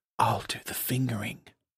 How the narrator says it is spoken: David whispers in his ear

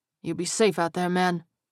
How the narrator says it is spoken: Terrell murmured

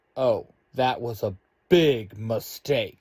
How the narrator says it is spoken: Red Ranger barks

